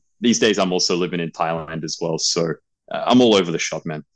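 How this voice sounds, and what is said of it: Mild Australian accent. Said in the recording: “I'm from Australia for most of my life, but I do have a background in the UK. So I'd like to think my accent isn't as heavy as other Australians.”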